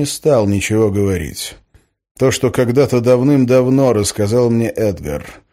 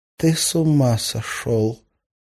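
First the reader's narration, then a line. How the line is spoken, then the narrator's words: Whisper. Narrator (Russian): прошептала Арина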